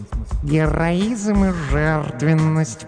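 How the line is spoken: Purring. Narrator (Russian): промурлыкала Глая

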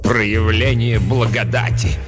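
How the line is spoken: Scornful snort. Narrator (Russian): презрительно фыркнула мать-настоятельница

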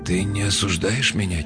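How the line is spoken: Quiet question. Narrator (Russian): тихо спросил Ив

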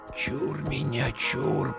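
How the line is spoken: Whispered. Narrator (Russian): прошептал Игнат

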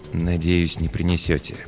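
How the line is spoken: Very quiet mutter. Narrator (Russian): пробормотал Пол так тихо, что слышал его только я

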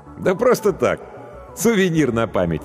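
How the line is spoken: Laughing. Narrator (Russian): рассмеялся профессор

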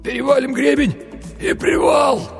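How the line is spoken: Hoarse wheeze. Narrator (Russian): прохрипел Винни-Пух

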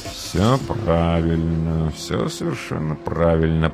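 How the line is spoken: Muttering. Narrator (Russian): пробормотал реалист

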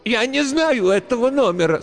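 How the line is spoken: Old woman's cracking shout. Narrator (Russian): срывающимся голосом выкрикнула старуха

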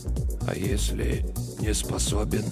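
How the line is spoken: Hoarse whisper. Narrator (Russian): Из сизых губ исходил один хриплый шепот

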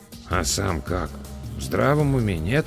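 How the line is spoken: Quiet mutter in ear. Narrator (Russian): тихонько пробурчал мне на ухо Эдвин

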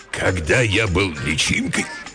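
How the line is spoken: Hoarse parent. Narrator (Russian): хрипло начал родитель

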